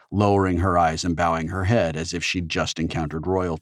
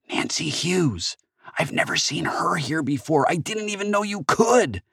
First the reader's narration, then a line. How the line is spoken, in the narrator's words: she whispered